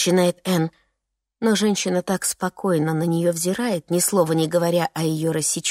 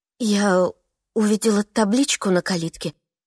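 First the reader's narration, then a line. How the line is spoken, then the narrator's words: Confused mumble. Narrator (Russian): растерянно бормочет она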